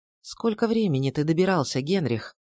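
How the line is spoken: Soft question. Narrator (Russian): мягко спросила я его

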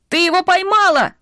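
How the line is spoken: Child shouting. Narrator (Russian): кричал маленький мальчик

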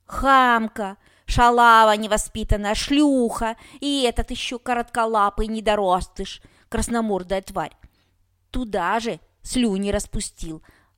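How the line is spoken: Indignant yelling old woman. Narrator (Russian): орала бабка возмущенно

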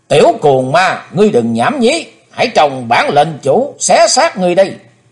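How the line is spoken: Shout. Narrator (Vietnamese): tiếng quát, tên ác đạo

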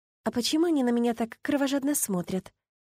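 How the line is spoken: Quiet question. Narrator (Russian): негромко спросила я

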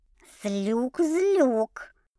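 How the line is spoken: Warning hiss. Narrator (Russian): Предупреждающе зашипела Люся

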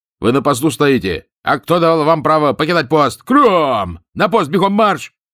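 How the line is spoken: Loud barked command. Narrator (Russian): тот да как гаркнет

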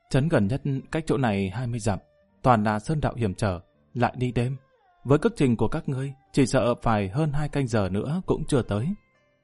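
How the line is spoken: Young woman speaking. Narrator (Vietnamese): thiếu nữ chủ trừ nói

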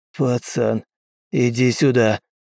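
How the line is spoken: Hoarse, frightened. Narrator (Russian): Уилл со страхом сиплым голосом сказал

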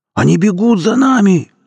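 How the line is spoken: Boot yelling. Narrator (Russian): завопил сапог

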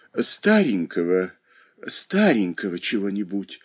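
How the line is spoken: Whisper. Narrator (Russian): шептала хозяйка

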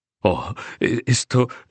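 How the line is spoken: Murmur. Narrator (Spanish): murmuraba

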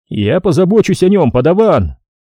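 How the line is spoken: Shouted. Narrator (Russian): крикнул он

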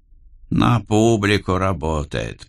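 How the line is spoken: Grumbling. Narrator (Russian): проворчал Мартин

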